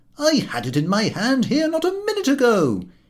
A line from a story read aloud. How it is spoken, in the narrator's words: he would exclaim